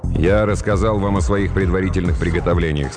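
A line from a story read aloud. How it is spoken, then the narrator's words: Plain. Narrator (Russian): сказал я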